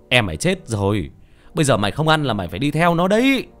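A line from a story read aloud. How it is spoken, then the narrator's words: Old man shouting. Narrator (Vietnamese): Ông hét lên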